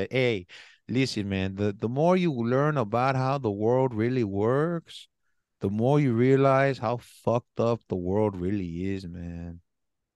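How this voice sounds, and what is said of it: Imitates another person's voice. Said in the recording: “in this accent”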